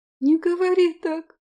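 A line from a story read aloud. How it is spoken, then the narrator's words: Muffled sob. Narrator (Russian): всхлипнула Роза, уткнув лицо в ладони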